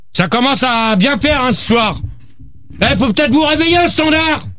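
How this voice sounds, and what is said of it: Shouting. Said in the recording (French): “arrête de crier, toi!”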